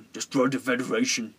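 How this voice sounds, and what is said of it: Imitates a villain character's voice. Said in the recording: “my Krall impersonation”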